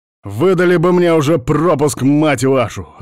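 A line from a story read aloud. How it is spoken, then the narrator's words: Yelling. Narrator (Russian): заорал я на придурков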